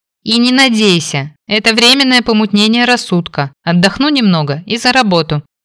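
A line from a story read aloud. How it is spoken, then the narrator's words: Shouted. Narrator (Russian): прокричала я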